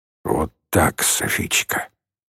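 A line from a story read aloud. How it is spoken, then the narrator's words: Quiet, gurgling voice. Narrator (Russian): тихим, клокочущим голосом произнес Шамиль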